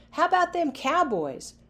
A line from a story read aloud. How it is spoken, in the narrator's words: Players yelled